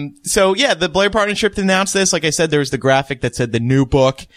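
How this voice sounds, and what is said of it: Usual voice. Nothing is said of it.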